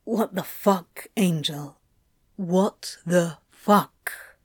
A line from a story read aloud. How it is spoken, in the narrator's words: Crowley waits until they're out of hearing range and then says, somewhat weakly